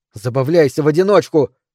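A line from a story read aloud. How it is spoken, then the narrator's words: Shout. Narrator (Russian): крикнула Микаэла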